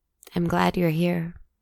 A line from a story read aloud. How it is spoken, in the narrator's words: she said